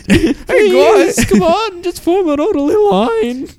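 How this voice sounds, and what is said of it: High-pitched teenage character voice. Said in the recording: “the teenager with the high voice”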